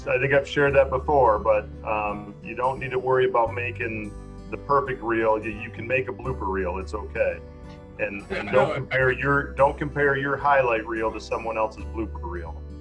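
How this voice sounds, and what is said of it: Michigan accent. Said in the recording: “something about the Michigan accent ... It just sounds a bit more, potentially comedic”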